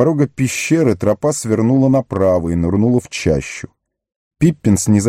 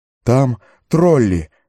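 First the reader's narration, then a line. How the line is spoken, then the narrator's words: Breathless. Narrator (Russian): выдохнул Пиппин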